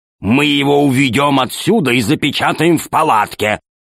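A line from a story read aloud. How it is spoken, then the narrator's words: Growling. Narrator (Russian): зарычал Громозека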